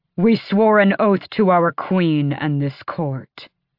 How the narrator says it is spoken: he snarled

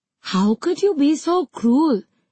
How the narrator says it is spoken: exclaimed one

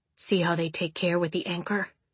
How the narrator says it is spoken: Orin spoke into Caledonia's ear, sure to keep his voice low

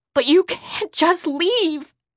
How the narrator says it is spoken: I pleaded

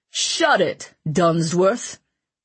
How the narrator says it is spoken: the king snapped

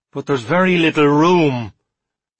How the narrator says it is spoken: said Smoot, in a defeated tone

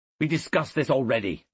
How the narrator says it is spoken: snapped Cassius

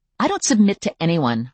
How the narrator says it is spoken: I snapped

